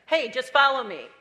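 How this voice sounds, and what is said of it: Loud, yelling commanding voice. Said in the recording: “why are you yelling at me ... I'm not yelling ... now you're really yelling at me”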